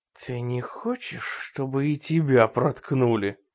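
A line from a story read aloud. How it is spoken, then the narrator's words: Eerie whisper. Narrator (Russian): жутким шепотом спросил Рой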